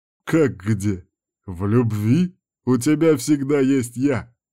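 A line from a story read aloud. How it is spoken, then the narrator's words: Short laugh. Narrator (Russian): хохотнул Кирк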